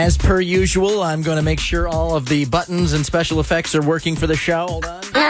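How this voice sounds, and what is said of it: Usual voice. Nothing is said of it.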